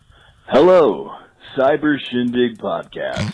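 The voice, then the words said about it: Deep announcer-style radio voice. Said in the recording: “I just kind of wanted to do the radio voice.”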